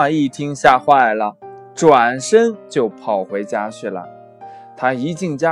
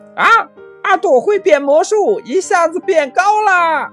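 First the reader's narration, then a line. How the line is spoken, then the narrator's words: Excited clamor. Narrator (Chinese): 同学们都嚷起来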